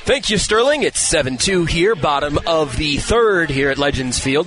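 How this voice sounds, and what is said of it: Old-timey baseball announcer voice. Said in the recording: “I like how the voice, you got to do this voice... The old-timey baseball voice.”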